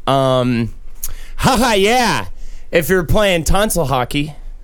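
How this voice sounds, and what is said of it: Bartender character voice. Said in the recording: “best bartender impersonation”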